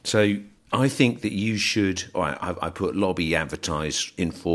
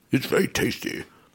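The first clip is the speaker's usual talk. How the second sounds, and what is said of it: Imitates another person's voice. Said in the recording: “Rees-Mogg standing up and saying ... I've done that impression.”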